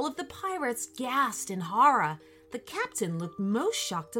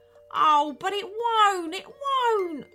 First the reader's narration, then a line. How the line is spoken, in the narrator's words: wailed the captain